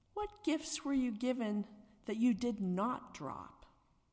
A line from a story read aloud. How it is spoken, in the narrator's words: spoke slowly with difficulty